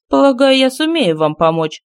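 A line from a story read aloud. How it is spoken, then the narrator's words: Mocking. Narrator (Russian): сказала рабыня, насмешливо глядя на них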